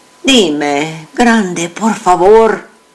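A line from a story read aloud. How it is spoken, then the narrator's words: Pleading. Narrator (Spanish): suplicó mi madre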